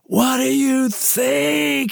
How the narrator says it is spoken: he screamed

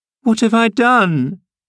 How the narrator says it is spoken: sobbed she, instantly checked

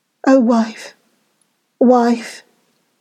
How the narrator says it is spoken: groaned

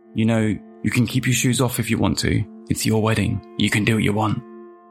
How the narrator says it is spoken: Monica smiled, whispering

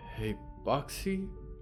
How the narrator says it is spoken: Moth whispered

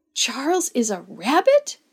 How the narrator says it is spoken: Beck gasped

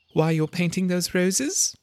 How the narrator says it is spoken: said Alice, a little timidly

